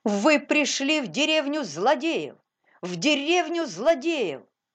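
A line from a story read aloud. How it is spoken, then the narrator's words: Sudden shout. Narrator (Russian): Паули из Ветерхофа вдруг закричал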